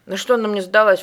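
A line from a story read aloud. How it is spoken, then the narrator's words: Snorting. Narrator (Russian): фыркнул Потапов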